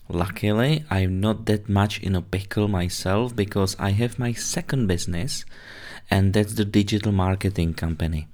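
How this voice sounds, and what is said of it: Slight Czech accent in English. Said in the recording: “my little accent ... I'm originally from Czech Republic”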